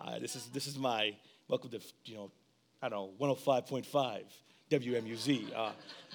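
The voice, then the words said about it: Late-night radio DJ voice. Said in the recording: “this voice of mine, this is my late night DJ voice ... my voice was leaving me”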